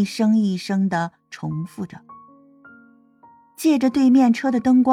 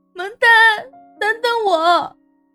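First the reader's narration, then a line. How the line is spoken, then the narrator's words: Anguished sobbing. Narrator (Chinese): 香妃痛苦的哭泣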